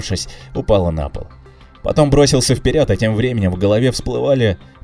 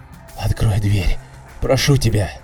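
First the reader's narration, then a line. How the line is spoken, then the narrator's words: Weak, fading whisper. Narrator (Russian): прошептал я, ощущая, что силы начинают покидать меня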